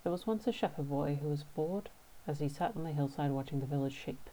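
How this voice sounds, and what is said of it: Australian English accent. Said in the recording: “my lovely Australian English accent”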